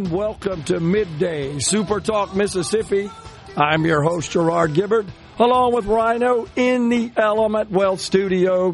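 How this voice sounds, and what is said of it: Faltering, under-the-weather voice. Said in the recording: “A little under the weather, folks. ... my voice is faltering a bit.”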